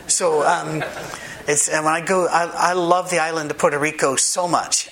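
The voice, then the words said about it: Speaker's own accent, measured pace. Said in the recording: “I'm talking as fast as I can. I'm actually not, but with my accent, this is as fast as you can hear.”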